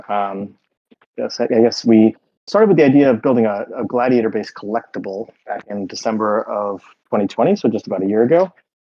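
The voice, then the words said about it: American accent. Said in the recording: “I'm an American, as you can probably tell from my accent”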